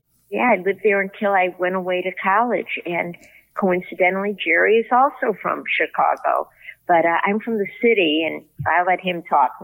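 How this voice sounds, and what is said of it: Chicago accent. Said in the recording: “I was born and raised in Chicago, as you can probably tell from my accent. ... Yeah, that's a good accent.”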